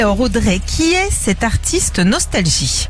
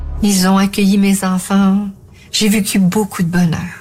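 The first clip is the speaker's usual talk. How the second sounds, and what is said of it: Imitates another person's voice, slight accent. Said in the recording (French): “Il y avait ce petit accent. Oui. Tu le fais mieux quand même ... c'était moi”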